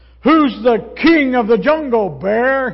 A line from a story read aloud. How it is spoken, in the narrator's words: roared